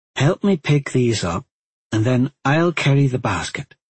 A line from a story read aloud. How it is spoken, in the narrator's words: she calmly instructed